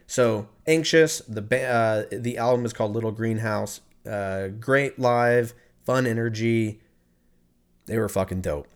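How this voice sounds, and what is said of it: Hoarse, strained voice. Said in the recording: “I'm fucking losing my voice.”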